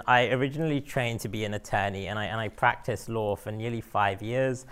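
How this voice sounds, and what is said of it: London English accent. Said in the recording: “as you can tell from my accent, I am not from here. I am from London”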